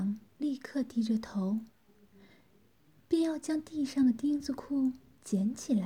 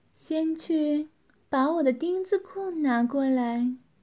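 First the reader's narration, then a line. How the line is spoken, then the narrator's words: Woman's satisfied laugh. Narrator (Chinese): 女子满意地笑道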